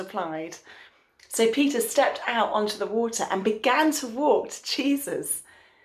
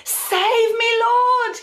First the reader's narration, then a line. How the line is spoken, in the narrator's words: he cried out